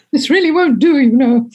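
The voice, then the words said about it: Posh Princess Margaret impression. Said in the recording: “I put on my best Princess Margaret accent”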